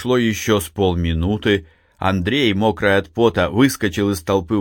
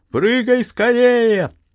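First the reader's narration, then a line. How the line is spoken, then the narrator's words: Shout. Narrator (Russian): крикнул Максим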